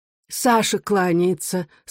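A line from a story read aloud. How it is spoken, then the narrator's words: Plain. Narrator (Russian): сказала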